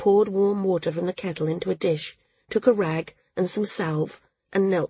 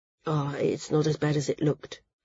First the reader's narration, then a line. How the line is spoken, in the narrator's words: murmured